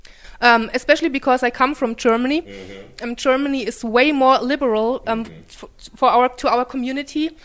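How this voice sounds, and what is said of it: German accent. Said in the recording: “I just love her accent. Yes, she is from Germany.”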